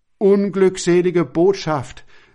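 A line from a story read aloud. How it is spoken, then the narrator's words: Pained exclamation. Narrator (German): rief voll Schmerz der Herr Wilhelm aus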